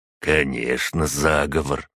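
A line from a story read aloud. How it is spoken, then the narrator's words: Plain. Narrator (Russian): ответил первый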